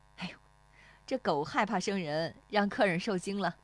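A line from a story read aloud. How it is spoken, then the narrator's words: Laughing. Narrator (Chinese): 那妇女对石丽华笑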